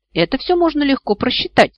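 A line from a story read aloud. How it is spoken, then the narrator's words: Calm retort. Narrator (Russian): спокойно парировал собеседник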